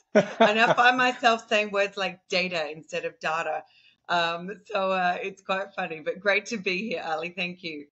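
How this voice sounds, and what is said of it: Australian accent, somewhat softened. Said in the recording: “as people can probably tell from the accent, I am an Aussie ... maybe my Aussie accent is not as Aussie as what it used to be”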